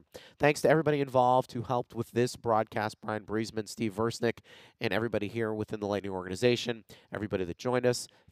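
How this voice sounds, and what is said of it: Hoarse, croaky voice. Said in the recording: “my voice sounds like a frog went down it”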